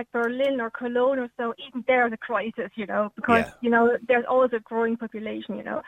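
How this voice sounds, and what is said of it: German accent mixed with Cork Irish. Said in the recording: “You've got a wonderful Cork accent already ... You've got a lovely Cork accent. It's a kind of crossbreed accent between Germany and Cork.”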